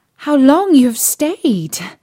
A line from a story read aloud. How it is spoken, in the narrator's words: cried she, gaping, rubbing her eyes, and stretching herself as if she had been just waked out of her sleep